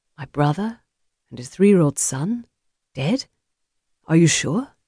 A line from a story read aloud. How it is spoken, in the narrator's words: The ramifications of the man's words sank deeply into his soul, wounding him, and he whispered